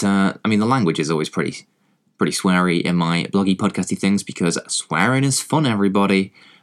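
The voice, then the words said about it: English accent. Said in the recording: “I am, you know, English, as you can probably tell from my accent”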